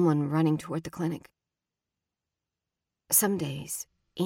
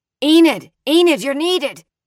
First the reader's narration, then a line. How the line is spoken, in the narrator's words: The shout came up the road